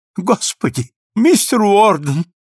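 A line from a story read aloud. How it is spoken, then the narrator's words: Exclaiming. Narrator (Russian): воскликнул поверенный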